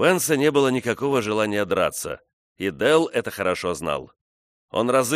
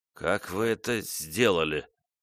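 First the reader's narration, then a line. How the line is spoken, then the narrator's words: Stammering. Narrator (Russian): запинаясь, произнес он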